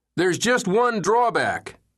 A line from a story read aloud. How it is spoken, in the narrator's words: he yelled